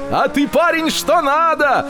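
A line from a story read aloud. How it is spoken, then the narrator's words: Shouting. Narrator (Russian): прокричал спекулянти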